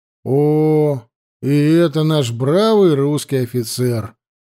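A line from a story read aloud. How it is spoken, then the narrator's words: Loud drawl across hall. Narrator (Russian): протянул громко на весь зал штабист Светильников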